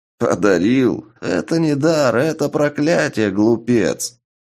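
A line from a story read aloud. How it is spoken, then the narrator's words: Hearty laughter. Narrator (Russian): От души рассмеялся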